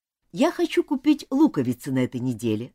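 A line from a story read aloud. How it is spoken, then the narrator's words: Plain. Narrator (Russian): сказал Джон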